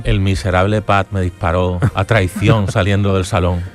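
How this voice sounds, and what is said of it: Deep voice from beyond the grave. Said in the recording (Spanish): “esa voz de ultratumba”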